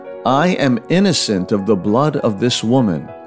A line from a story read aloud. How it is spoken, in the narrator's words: He cried out with a loud voice